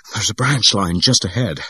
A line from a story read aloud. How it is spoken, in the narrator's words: she gasped